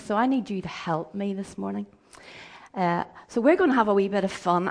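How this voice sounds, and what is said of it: Hoarse, croaky voice. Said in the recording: “My voice, as you can hear, isn't fantastic at the moment ... I'm a little bit hoarse ... the croakiness”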